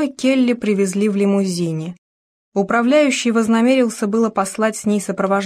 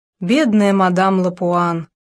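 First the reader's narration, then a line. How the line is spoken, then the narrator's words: Sighing woman. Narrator (Russian): вздохнула какая-то женщина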